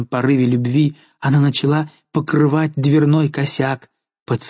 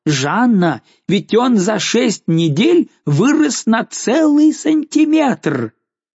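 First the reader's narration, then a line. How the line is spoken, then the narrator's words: Shouted. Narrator (Russian): Барон кричал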